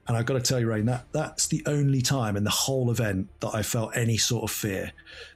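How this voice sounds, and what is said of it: English accent. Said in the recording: “if you couldn't tell by his accent, he's from across the pond, merry old England”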